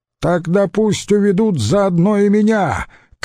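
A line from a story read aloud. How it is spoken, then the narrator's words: Shouted. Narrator (Russian): крикнул Квинт Кассий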